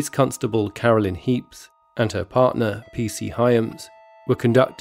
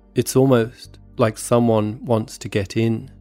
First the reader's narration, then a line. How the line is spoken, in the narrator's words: she said